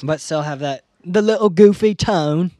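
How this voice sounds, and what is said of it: Briefly switches to a put-on accent. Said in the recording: “Don't know why I changed my accent. ... Because it was awesome.”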